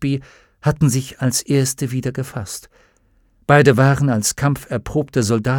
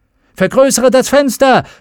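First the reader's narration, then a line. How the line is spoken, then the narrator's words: Calling out. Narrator (German): rief Lee Scoresby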